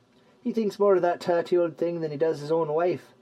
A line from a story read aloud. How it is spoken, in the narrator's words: chuckled Gallius